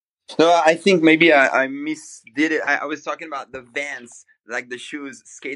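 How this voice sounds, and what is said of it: Speaks with a noticeable accent. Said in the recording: “Sorry, my accent again.”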